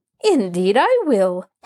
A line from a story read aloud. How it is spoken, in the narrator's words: Hannah assured her eagerly